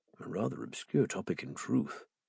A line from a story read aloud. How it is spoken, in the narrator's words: I murmured